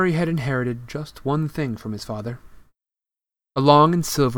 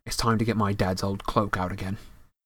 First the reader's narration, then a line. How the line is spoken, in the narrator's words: said Harry, more quietly still